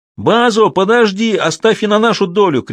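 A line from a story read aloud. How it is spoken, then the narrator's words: Many warriors shouting. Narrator (Russian): кричали 50 воинов Матабеле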